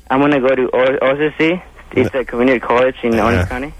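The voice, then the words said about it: Interesting accent, not just Mexican. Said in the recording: “you have an interesting accent. Doesn't just sound like a Mexican accent. ... it's interesting sounding.”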